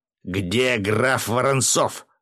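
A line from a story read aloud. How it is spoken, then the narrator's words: Sharp bark. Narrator (Russian): рявкнул Федоров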